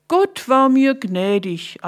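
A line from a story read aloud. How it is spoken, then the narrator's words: Feigned cheerful answer. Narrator (German): antwortete Jakob und tat so, als ob er ganz fröhlich wäre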